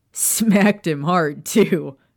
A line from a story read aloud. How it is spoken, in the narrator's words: Sirius barked out a laugh